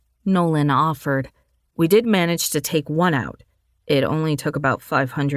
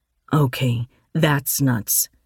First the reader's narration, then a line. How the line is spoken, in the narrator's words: Dylan muttered into the comm